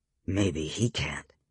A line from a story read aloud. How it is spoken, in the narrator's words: Victor said quietly